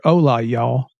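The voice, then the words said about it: Put-on southern twang. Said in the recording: “just put a little southern twang on here.”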